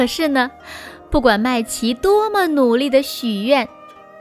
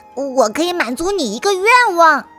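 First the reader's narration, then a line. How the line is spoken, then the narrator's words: Joyful cry. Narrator (Chinese): 大脚小精灵高兴得脸红扑扑的，高兴地叫道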